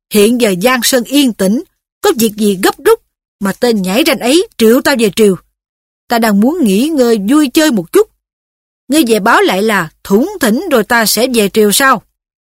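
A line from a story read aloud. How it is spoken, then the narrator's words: Scowling shouted question. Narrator (Vietnamese): Đổng Trác cau mặt quát hỏi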